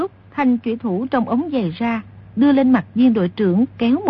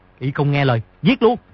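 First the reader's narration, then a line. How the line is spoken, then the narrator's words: Shout. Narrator (Vietnamese): viên đội trưởng bèn quát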